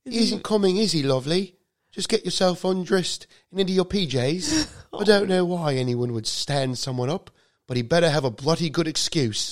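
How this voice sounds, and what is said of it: Put-on British accent. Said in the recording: “the mom has a British accent.”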